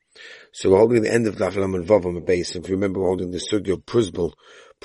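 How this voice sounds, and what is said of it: Strained, worn-out voice. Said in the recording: “My voice is progressively worse than yesterday ... save it ... the voice will get a little bit better”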